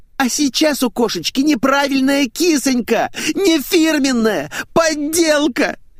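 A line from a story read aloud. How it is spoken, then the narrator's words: Nearly sobbing. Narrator (Russian): Чуть не зарыдала Светик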